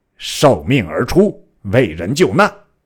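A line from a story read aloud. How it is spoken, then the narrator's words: Furious. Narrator (Chinese): 权大怒曰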